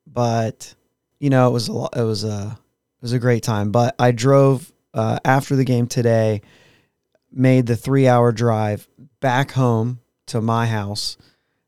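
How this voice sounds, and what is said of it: Strained, worn-out voice. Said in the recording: “Yelled a lot, which is why my voice is the way it is.”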